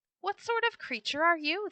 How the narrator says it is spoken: cried

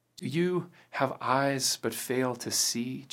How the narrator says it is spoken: Jesus said

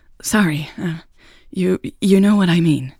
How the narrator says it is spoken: she stammered

